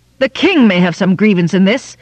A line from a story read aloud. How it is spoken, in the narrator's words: cried Aldarion, now more hotly